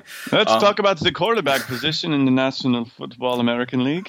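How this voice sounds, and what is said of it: Generic stereotypical put-on foreign accent. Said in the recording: “you always default to just like a somewhat stereotypical accent for things like that ... it's generic. So this accent is not from anywhere particularly”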